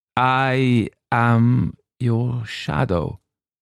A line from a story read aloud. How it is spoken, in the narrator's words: said the Struwwelpeter